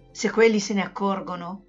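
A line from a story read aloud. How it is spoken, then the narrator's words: Murmured. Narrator (Italian): mormorò Pipig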